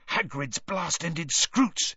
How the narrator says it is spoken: he hissed

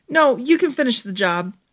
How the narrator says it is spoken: Stephanie said desperately

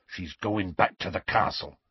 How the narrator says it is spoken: he said in a low voice

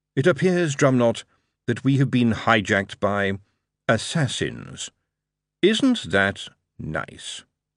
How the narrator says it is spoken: Lord Vetinari calmly sighed, and said to Drumknot

